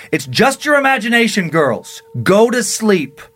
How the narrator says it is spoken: he shouted

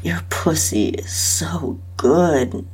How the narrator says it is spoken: moaned

